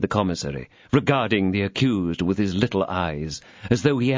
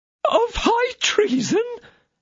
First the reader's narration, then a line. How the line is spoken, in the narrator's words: cried Bonancieux, confounded